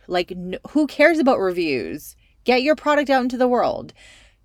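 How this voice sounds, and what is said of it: Raised, more intense voice. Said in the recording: “my tone of voice just increased”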